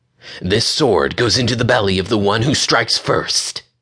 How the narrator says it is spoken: hissed Sarissa

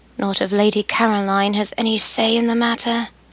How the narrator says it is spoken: Emily mumbled

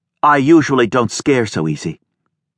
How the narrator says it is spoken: Her straight, stiffened back still to him, she snapped by way of explanation

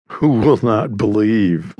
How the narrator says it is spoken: laughed Laidlaw, shortly, yet interested in spite of his thinly veiled contempt

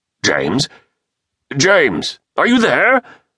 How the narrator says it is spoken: shouted

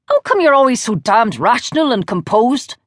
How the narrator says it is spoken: snapped

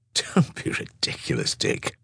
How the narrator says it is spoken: Mary responded with a chuckle

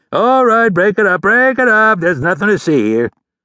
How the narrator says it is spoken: the blue-uniformed officer turned to the crowd and bellowed

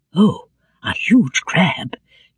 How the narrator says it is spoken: Jacob murmured

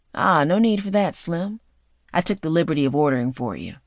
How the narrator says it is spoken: Kyle smoothly states

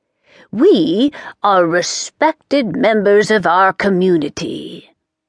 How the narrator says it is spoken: the Grand High Witch said haughtily

